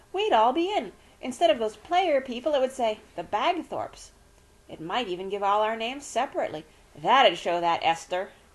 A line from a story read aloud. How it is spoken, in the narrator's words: cried Rosie